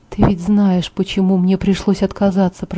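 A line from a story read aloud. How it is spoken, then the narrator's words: Whispered. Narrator (Russian): прошептал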